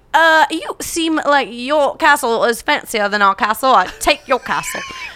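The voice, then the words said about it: Put-on British-sounding accent. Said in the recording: “That was much more British than Irish... Very.”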